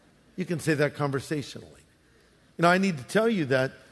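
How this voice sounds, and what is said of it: Usual voice. Nothing is said of it.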